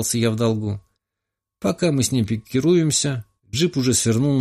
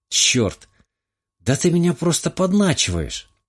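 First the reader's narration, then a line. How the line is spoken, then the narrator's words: Exclamation. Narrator (Russian): воскликнула Смолина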